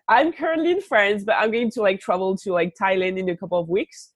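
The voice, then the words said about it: French accent in English. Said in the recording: “with the accent, I'm actually French”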